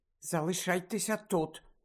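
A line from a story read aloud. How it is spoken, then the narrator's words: Whispered. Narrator (Ukrainian): прошепотіла Герміона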